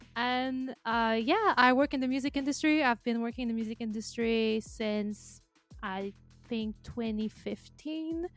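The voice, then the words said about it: French Canadian accent. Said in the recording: “I come from Montreal, Canada, so the French part of Canada, if someone is wondering what my accent is”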